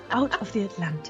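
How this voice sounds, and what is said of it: Soothing put-on Scottish accent. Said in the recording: “I'm going Scottish. ... I'm really enjoying this accent. It's very soothing.”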